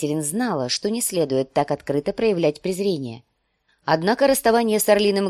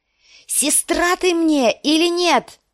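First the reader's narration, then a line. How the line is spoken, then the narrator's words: Shouting. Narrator (Russian): закричала она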